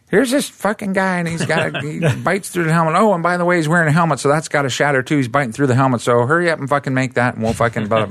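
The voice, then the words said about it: Weak impression of a director. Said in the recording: “Sorry, Steve, that was a bad impression.”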